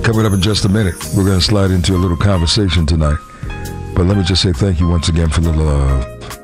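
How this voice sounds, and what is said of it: Hoarse male radio voice. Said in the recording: “with a hoarse voice”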